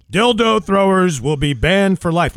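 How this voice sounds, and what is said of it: Imitates another person's voice. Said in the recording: “Try to do that in my Ted Knight voice... make it even more impactful... That was very good.”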